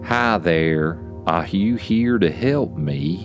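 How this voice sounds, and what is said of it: Strange alien-sounding character voice. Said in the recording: “The bunny says in a strange alien accent of some kind.”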